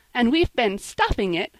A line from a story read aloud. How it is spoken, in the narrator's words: cried Polly merrily